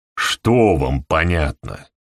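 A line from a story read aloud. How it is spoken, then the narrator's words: Irritated question. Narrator (Russian): раздраженно спросил Хедли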